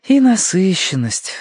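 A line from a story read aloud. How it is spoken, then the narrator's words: Sighing. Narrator (Russian): вздохнула Верити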